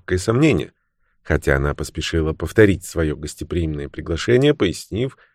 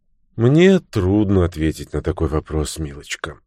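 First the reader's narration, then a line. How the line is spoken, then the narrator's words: Sighing. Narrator (Russian): вздохнув, ответила мисс Уэйнфлейт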